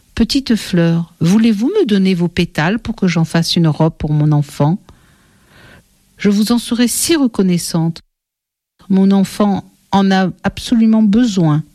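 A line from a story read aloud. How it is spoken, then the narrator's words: Caressing voice. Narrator (French): elle dit aux fleurs d'une voix caressante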